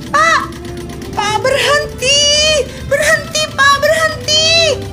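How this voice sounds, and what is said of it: Screaming in fear. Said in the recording (Indonesian): “Teriak”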